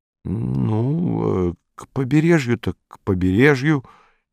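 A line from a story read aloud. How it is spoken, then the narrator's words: Uncertain. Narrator (Russian): неуверенно сказал Саул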